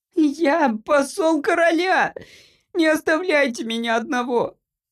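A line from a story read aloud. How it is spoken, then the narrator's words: Tiny cricket-like squeak. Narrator (Russian): запищал карлик, чирикая не громче сверчка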